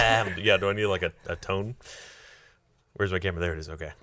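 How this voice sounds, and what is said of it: Usual voice. Nothing is said of it.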